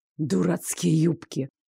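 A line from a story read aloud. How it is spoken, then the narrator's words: Hissed. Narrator (Russian): прошипел Лоренс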